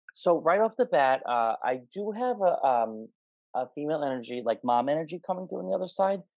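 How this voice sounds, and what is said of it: Fast-talking New York accent. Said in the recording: “if I'm talking too fast ... I'm from New York, so I'm like a mile a minute.”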